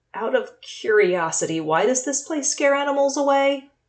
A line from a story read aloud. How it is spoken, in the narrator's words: Javen gulped and tried to keep his voice from cracking as he asked